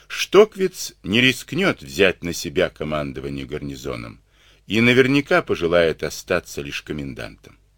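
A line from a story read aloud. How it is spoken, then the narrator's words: Calm reasoning. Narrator (Russian): спокойно рассудил Клюгенау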